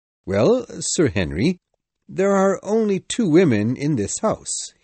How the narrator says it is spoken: he answered slowly

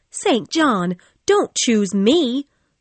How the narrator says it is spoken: cried

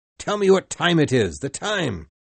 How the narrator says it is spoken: cried Ahab

